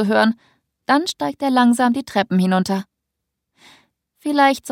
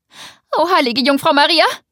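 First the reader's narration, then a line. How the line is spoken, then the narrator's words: Aunt shrieking from kitchen. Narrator (German): kreischt meine Tante aus der Küche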